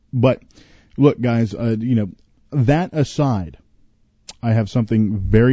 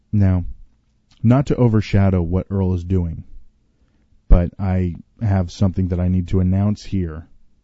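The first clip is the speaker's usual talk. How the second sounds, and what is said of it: Put-on serious voice. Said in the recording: “I've just put on my serious voice.”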